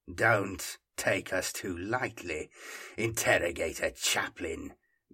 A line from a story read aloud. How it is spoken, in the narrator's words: growled Hieron